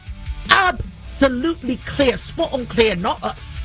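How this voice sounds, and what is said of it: Attempted British accent. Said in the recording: “I can't do a British accent, but I'm sure it was like”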